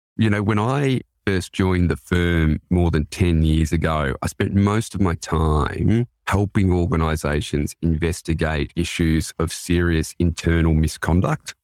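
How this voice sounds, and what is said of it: Australian accent. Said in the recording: “I'm based in Sydney, Australia, so please excuse my accent throughout the discussion”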